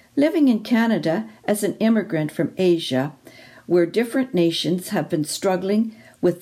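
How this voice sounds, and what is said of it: Non-native English accent. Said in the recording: “speaks English as my second language ... my English accent”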